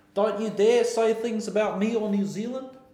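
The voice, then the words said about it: Put-on New Zealand accent. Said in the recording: “I think my New Zealand accent's pretty nice.”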